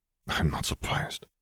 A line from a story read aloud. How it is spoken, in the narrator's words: Apolline murmured